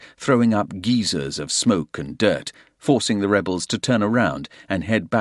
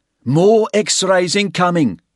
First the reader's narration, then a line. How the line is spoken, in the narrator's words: Tully shouted